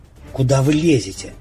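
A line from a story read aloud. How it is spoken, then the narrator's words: Displeased hiss. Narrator (Russian): недовольно зашипела Светлана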